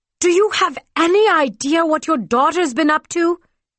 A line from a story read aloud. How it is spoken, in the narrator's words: He shouted